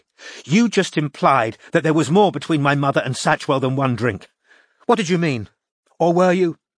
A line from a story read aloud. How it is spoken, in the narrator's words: said Anna furiously